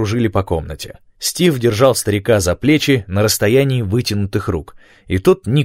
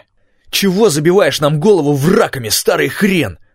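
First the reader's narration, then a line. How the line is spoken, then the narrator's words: Furious yell. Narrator (Russian): заорал Стив в неподдельной злобе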